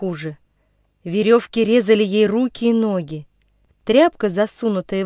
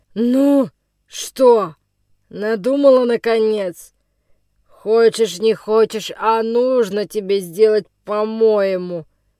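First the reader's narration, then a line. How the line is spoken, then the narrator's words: Rough. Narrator (Russian): Грубо проговорил он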